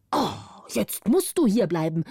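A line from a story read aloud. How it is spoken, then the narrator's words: Old man shouting angrily. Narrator (German): rief der Alte zornig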